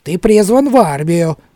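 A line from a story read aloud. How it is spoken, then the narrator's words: Pleased giggle. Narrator (Russian): довольно хихикнул сержант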